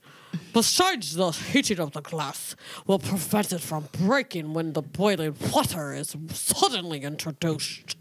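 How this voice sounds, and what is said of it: Attempted Sean Connery voice. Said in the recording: “Sean Connery. ... Now imagine Walter Cronkite ... Apparently the only accent I can do is Walter Cronkite.”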